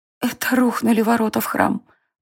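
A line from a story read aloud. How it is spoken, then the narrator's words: Whisper. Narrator (Russian): прошептала Тиена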